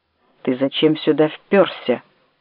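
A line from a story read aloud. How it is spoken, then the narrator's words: Hissing doorman. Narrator (Russian): шипел швейцар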